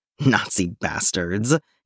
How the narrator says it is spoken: he grumbled again, with a sigh

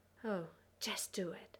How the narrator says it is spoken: Eroica breathed

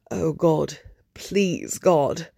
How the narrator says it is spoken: Nothing but the roaring of the firestorm and the heat of the flames cooking his skin on his bones, cooking his organs, as he says

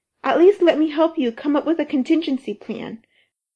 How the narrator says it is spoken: Rodney pleaded

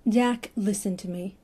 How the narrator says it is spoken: Stephen said gently

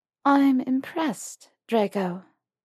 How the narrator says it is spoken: Hermione purred

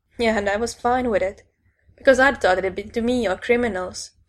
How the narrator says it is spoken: Frankie laughed bitterly

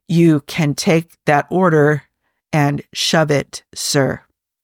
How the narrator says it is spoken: he answers, speaking slowly

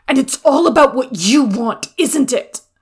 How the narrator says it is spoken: Jiang Cheng shouted back, his vision blurred, wetness wound its way down his face

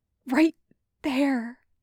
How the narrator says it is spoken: Anya said, her voice shaking

